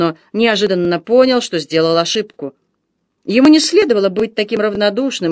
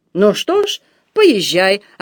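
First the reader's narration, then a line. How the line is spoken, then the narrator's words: Offended tone. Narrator (Russian): обиженно сказала она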